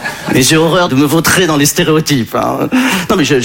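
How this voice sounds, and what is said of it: Usual voice. Nothing is said of it.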